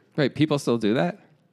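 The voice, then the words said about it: Sarcastic tone. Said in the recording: “Yeah, I'm being sarcastic, bro.”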